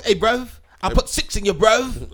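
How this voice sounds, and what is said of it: Put-on British accent. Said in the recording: “British dudes is that they don't sound hard at all, man. It's like you can't really sound hard when you talk.”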